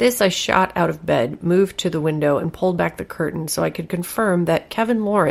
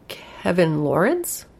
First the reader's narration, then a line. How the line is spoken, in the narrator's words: I asked